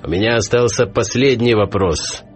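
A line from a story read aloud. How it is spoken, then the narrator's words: Loud shout to everyone. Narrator (Russian): громко крикнул Хохошуткин, обращаясь ко всем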